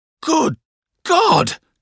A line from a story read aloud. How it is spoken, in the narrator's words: cried Traddles